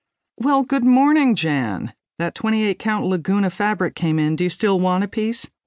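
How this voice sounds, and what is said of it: Usual voice. Nothing is said of it.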